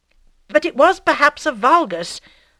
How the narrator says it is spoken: suddenly exclaimed Bovary, who was meditating

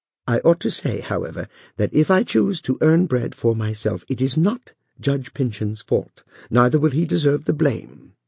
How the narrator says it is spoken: added she, more kindly, remembering Uncle Venner's privileges of age and humble familiarity

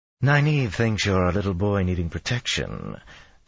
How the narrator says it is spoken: Tylan breathed up at him

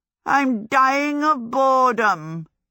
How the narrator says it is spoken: Howl said pathetically, or maybe just dying

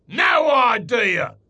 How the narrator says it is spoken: snarled the cruel voice

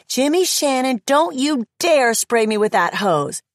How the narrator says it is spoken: shouting

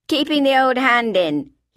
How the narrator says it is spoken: he shouted back above the din of the hammering

